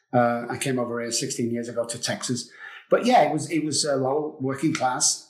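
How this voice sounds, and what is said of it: English accent. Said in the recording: “You probably do from the accent. I'm from England.”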